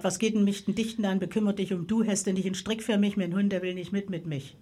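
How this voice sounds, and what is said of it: Local German dialect phrases. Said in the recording (German): “Man sagt ja immer so in der Mundart ... in der Stieger Mundart”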